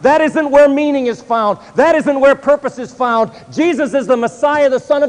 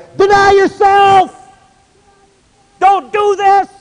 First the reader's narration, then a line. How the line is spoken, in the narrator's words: your rabbi starts screaming from the top of this hill